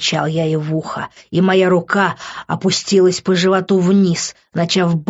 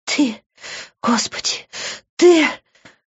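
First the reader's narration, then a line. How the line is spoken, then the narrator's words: Muffled whisper. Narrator (Russian): глухо прошептала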